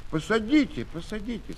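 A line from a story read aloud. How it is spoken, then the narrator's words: Plain. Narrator (Russian): сказал Тушин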